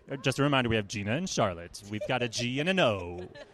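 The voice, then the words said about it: Announcer-style radio voice. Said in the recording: “my radio voice is suddenly turning on”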